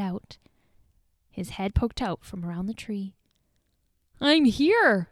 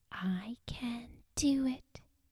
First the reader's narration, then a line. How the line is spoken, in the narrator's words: she whispered into the quiet night